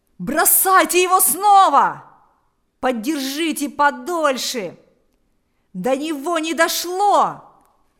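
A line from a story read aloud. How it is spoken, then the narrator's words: Several voices shouting. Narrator (Russian): закричали несколько голосов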